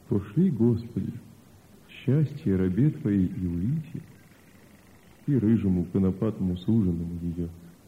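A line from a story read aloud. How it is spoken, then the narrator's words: Sad, barely audible. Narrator (Russian): Грустно улыбнулся Илья, и сказал чуть слышно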